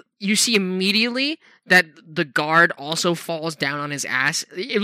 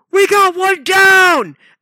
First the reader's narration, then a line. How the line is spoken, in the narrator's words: the guard immediately shouts